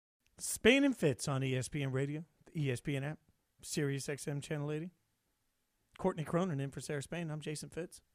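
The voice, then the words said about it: Smooth, laid-back radio DJ voice. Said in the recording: “This is my Christmas DJ voice ... a little bit more casual, a little more laid back for my Christmas jams ... that smoothness”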